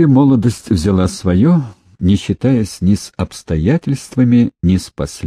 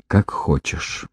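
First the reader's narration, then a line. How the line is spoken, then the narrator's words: Half-whispered. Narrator (Russian): Андрей не то подумал, не то прошептал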